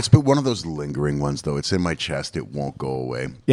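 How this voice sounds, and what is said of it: Raspy, hoarse voice. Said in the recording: “Your voice is a little raspy. ... you can hear my voice. It's a bit off.”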